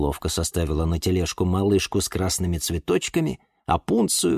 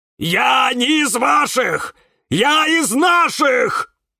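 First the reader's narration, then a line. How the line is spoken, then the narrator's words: Screaming with all his might. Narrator (Russian): Что было сил, завопил кактус Кирилл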